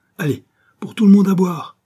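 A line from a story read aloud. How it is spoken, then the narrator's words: Shouted. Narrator (French): cria Joey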